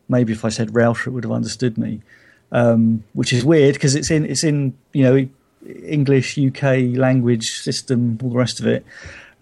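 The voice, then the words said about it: English Hampshire accent. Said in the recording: “my Hampshire accent”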